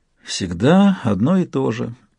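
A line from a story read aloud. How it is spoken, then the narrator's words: Sad. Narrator (Russian): грустно сказала она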